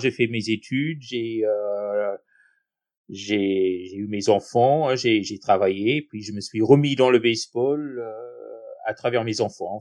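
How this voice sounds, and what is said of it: Speaks with a noticeable accent. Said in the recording (French): “un aussi bel accent”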